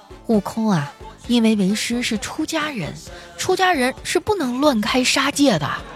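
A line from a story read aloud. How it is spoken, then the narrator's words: Gentle. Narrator (Chinese): 我只能温柔的说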